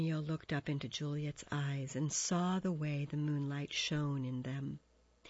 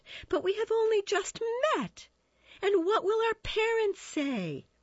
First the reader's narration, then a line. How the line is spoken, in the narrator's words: laughed Juliet